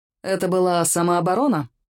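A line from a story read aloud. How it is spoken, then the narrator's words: Grim question. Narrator (Russian): мрачно осведомился Киллиан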